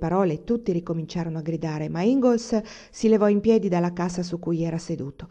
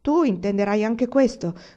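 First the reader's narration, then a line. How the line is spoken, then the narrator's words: Shouted by a hothead. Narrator (Italian): gridò uno scalmanato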